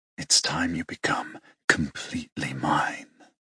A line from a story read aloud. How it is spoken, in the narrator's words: Aiden leans into my ear and whispers